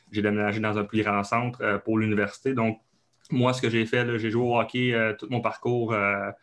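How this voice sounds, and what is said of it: Québécois French accent. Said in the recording (French): “comme vous l'avez sûrement vu avec mon accent, je viens euh, du Canada, donc du Québec, euh, plus précisément en Abitibi. Donc, c'est un autre coche d'accent”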